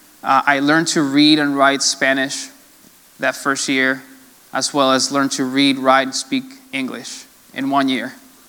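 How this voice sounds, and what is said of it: Slight Latino accent. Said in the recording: “My accent is not so heavy ... my Latino will come out ... sounding all, you know, Latino”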